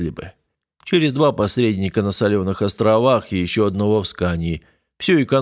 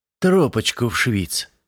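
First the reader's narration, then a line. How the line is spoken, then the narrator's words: Ingratiating tone. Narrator (Russian): вкрадчивым тоном подал свой голос Крон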